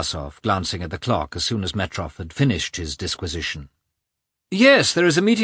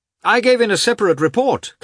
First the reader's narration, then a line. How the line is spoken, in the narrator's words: Katavasov called out from the next room